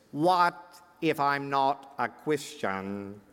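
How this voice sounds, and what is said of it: Impressive clergyman voice. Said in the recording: “in your impressive clergyman voice,”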